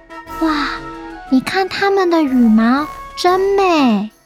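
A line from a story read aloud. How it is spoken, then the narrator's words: Admiring exclamation. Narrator (Chinese): 其他鸟儿们边看边赞叹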